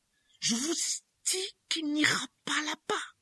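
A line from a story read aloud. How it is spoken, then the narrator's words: Hissing voice. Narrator (French): dit d'une voix sifflante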